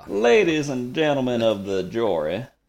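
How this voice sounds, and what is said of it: Old-timey Southern gentleman accent. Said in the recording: “old Georgia Southern male accent. You know, Southern gentleman accent. ... like a old-timey lawyer in a movie”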